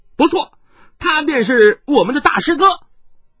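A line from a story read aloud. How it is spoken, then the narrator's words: Child speaking loudly. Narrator (Chinese): 跛足童子，大声的说道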